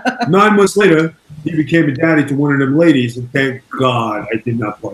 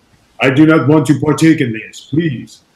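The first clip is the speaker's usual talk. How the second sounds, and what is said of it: Put-on German accent. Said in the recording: “in my German accent”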